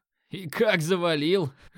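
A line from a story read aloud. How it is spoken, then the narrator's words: Short laugh. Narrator (Russian): хохотнул я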